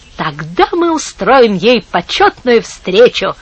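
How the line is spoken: Plain. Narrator (Russian): сказала Пипита

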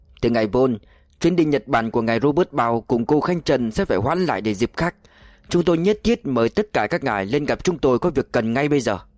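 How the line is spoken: Cold reply in English. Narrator (Vietnamese): Người đội trưởng lạnh lùng trả lời bằng tiếng Anh

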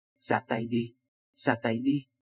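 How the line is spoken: Fearless, decisive. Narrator (Vietnamese): Triệu Phong vẫn không hề sợ hãi, rất dứt khoát nói

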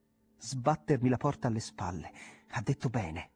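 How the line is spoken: Exclaimed. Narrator (Italian): esclamò

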